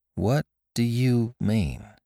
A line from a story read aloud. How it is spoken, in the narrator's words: asked slowly